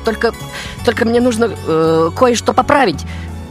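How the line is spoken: Confused reply. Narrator (Russian): растерянно отвечу я

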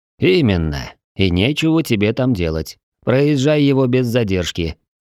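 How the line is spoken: Plain. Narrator (Russian): сказал Петч

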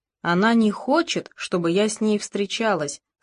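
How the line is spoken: Calm. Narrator (Russian): спокойно сказала его мать

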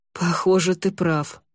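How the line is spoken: Relieved sigh. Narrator (Russian): облегченно вздохнул Винде

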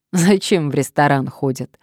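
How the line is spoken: Laughing. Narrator (Russian): рассмеялась Надежда

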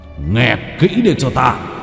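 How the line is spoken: Big man's roar. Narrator (Vietnamese): Vương Bình, dáng người to lớn thẳng tắp, gầm lên một tiếng

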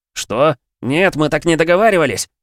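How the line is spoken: Panicked yell. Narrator (Russian): заорал Стас, пытаясь убежать

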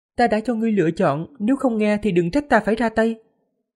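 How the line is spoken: Smiling. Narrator (Vietnamese): Diệp Phàm mỉm cười, nói

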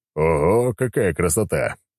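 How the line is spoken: Chuckling. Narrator (Russian): хохотнул

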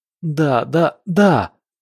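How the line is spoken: Whining. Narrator (Russian): Дима снова заскулил

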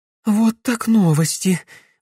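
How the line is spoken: Breathless exclamation. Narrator (Russian): выдохнула Катерина, едва поспевая за мальчишками

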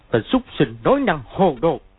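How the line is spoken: Shouted. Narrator (Vietnamese): Y quát

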